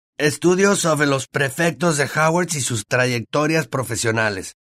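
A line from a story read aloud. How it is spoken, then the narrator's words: Reading aloud. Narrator (Spanish): leyó Ron en voz alta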